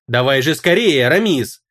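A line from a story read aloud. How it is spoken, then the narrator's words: Fierce growl. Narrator (Russian): Тавис зарычала, словно волчица, у которой отнимают волчат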